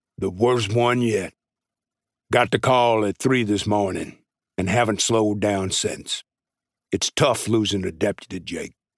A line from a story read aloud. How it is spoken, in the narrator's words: grunted and said